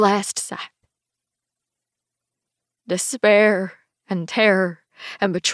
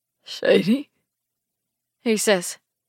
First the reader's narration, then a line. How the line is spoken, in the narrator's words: his voice a rasp